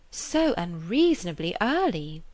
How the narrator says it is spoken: was going to exclaim

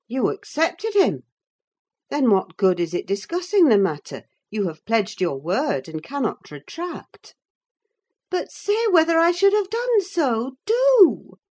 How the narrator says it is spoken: she exclaimed in an irritated tone

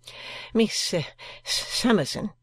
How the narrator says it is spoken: stammered Mr

